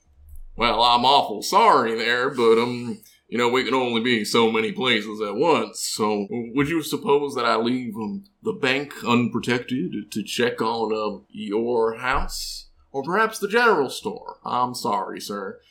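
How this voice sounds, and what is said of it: Put-on cowboy accent. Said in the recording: “really gonna stretch his fucking accent muscles ... has actually, like, a few cowboy voices”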